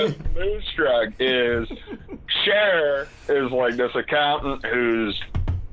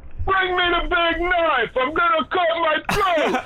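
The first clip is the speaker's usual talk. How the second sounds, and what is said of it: Yelling with put-on Italian accent. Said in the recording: “he just yells at the top of his lungs ... He's trying to put on this Italian accent.”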